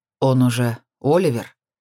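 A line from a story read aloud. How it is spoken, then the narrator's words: Muffled dull voice. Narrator (Russian): произнес глухо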